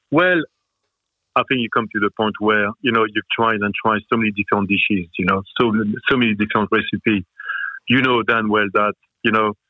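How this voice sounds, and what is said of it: French accent. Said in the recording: “Time for the little French. ... we're just taking in the accent. We're just swimming in the accent”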